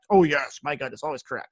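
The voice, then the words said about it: Poor imitation of another person's voice. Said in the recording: “there's my terrible Trump impersonation”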